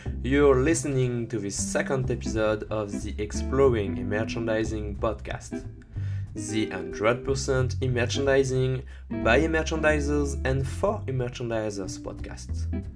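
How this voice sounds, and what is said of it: French accent. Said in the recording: “with my French accent”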